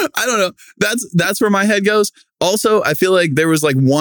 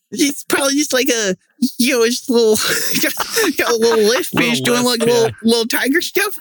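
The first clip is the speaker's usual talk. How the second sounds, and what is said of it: High-pitched imitation of another person's voice. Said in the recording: “they have like a high pitched voice ... I don't think that was a great Mike Tyson impression by any means ... That was a great Mike Tyson tiger impression, though.”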